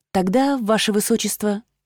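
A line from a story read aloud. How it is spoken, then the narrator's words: Timid, smiling. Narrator (Russian): я робко улыбнулась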